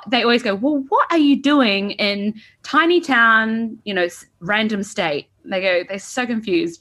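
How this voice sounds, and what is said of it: New Zealand accent. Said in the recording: “the Kiwi accent ... where my accent is from”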